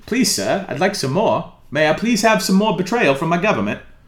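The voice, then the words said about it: Put-on British accent. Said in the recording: “Sometimes I just do a British accent. Supposed to make you sound smarter.”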